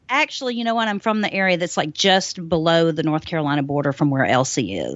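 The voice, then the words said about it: Southern US accent. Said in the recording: “your accent, I always see you like in Georgia”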